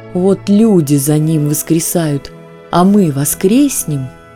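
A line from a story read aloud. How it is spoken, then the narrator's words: Hungry wolf's pleading moan. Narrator (Russian): простонала голодная волчица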